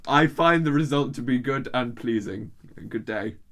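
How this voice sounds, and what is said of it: Bad put-on accent. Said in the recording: “that was the worst accent I've ever done”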